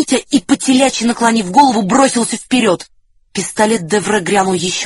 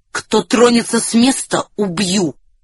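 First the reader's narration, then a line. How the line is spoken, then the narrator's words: Quiet warning. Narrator (Russian): негромко предупредил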